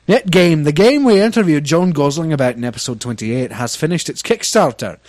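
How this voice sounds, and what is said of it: Put-on Scottish accent. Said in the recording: “which accent should I do? ... You do Scottish all the time. ... All right, fine, then I'll do Scottish.”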